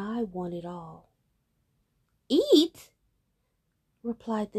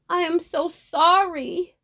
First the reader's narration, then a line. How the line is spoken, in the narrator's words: Osada cried